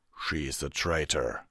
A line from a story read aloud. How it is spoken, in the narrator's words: Vanguard growled